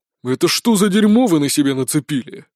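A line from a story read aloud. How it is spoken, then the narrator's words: Deep bass voice. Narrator (Russian): пробасил генерал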